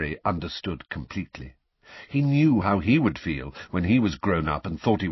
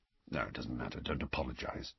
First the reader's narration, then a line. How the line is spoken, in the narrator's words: Sirius mumbled